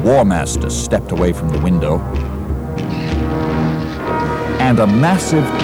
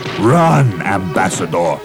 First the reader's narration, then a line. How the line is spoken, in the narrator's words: he thundered